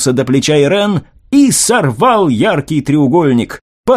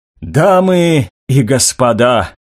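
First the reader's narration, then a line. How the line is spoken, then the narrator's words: Hoarse voice. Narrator (Russian): охрипшим голосом произнесла Жиль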